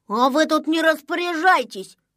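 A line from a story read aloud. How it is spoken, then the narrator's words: Rude reply. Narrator (Russian): грубо ответил незнайка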